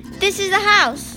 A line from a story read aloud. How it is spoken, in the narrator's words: exclaimed